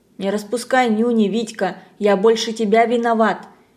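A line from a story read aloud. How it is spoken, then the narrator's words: Gentle, not angry. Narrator (Russian): совсем несердитым голосом Буренков сказал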